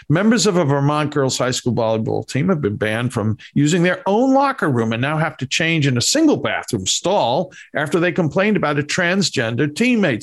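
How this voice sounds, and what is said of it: Bronx accent. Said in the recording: “my Bronx accent”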